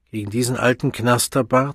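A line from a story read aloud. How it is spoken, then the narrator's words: Plain. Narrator (German): sagte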